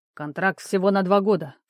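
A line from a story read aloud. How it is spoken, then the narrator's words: Dismissive snort. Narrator (Russian): фыркнул Рамус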